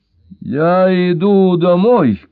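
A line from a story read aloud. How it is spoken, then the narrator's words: Shout. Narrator (Russian): крикнул Брайан Мосс Джелли Уайт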